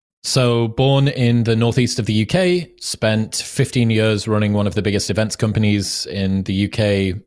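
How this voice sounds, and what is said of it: Northeast English accent. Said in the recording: “the cool accent”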